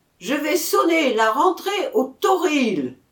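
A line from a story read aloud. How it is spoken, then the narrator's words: Bugler shouting. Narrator (French): cria le clairon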